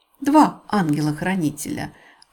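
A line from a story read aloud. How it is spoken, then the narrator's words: Happy murmuring. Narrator (Russian): радостно бормотала мисс Марпл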